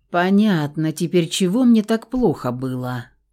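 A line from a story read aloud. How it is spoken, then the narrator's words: Tired exhale. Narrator (Russian): устало выдохнул Феникс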